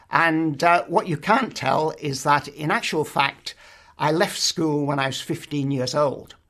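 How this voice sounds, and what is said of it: English accent. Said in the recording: “I'm English. You can tell that from my accent.”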